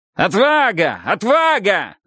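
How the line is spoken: Shouting. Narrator (Russian): закричал Хрол

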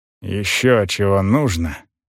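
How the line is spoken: Muttered question. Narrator (Russian): вопрос смахивал на бормотание

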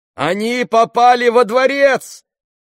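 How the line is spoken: Shout. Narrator (Russian): крикнул кто-то

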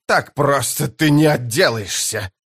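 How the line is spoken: Furious hiss. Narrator (Russian): прошипел белый от ярости Порм-Кваль

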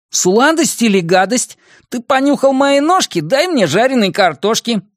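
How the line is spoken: Cheerful exclamation. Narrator (Russian): весело воскликнул Бенни

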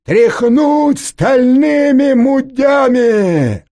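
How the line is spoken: Soldiers yelling in unison. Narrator (Russian): ответно заорали десантники

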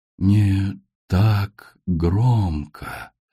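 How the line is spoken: Whisper. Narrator (Russian): прошептал ее голос

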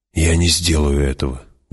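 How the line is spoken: Breathed out. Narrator (Russian): выдохнул он

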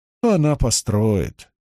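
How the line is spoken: Dry remark. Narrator (Russian): сухо заметила Шириам

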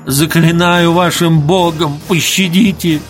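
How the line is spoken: Moaning. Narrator (Russian): стонал он

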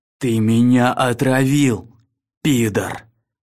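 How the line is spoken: Fierce, through gritted teeth. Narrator (Russian): Свирепо процедил Арктур

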